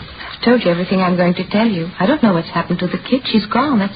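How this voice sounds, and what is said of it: Woman with a strong foreign accent. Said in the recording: “She spoke with a decided accent.”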